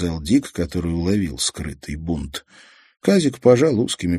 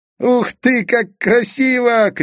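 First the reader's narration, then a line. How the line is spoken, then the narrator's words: Shouted. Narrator (Russian): крикнул Казик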